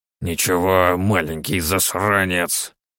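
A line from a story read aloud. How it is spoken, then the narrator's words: Old man creaking under breath. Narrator (Russian): проскрипел себе под нос старик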